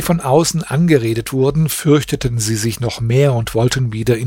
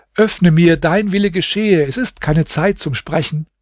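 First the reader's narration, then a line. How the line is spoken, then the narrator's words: Joyful call. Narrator (German): Hasan rief ihr voller Freude zu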